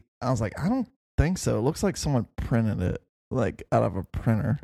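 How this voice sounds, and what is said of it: Usual voice. Nothing is said of it.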